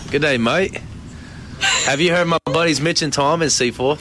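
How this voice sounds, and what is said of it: Attempted Australian accent sounding British. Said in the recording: “put on his best Australian accent ... That sounds like I'm from London ... It does sound very British”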